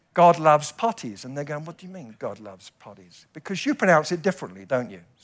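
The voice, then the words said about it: British English accent. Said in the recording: “with my accent ... they thought I was saying potty ... we British people, what we do is we mumble”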